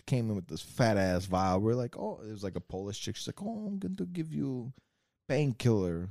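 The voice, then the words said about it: Put-on Russian accent. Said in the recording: “this kind of Russian accent”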